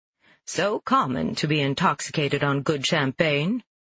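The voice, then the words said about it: Posh New England accent. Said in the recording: “in my best posh New England accent. I have a pretty good one”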